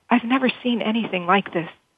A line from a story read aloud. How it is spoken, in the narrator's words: whispered, mesmerized